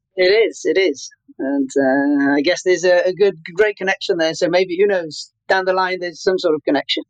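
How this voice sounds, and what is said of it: Italian-accented English. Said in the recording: “is originally from Puglia, but as you can tell by his accent”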